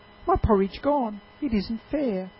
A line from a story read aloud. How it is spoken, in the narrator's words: cried the baby bear